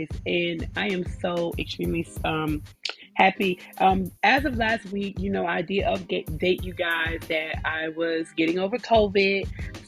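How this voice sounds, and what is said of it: Excited, happy voice. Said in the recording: “you can probably tell the excitement in my voice”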